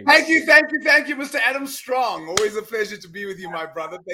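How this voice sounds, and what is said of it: South African accent. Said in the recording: “he's from uh, sunny South Africa, so you can probably tell that by by his accent when he comes when he comes on, and uh, and you'll be able to distinguish that straight away”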